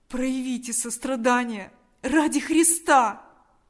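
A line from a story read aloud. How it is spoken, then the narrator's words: Desperate pleading. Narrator (Russian): Взмолился Степан с новым отчаянием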